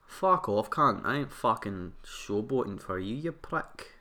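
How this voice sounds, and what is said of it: Put-on Scottish accent. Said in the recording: “Scottish.”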